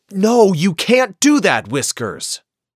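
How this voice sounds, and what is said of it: Mean-sounding scolding father voice. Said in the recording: “in a very mean voice, ... in a mean voice”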